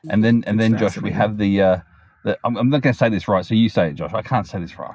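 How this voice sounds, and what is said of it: Australian accent. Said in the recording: “I can't pronounce it properly with my Australian accent.”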